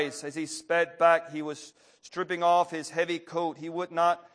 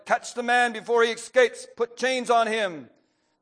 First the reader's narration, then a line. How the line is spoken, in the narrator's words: From the opposite bank of the river, the burgomaster shouted